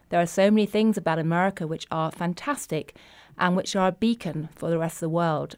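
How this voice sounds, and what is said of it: British accent. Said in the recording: “even with a strange British accent”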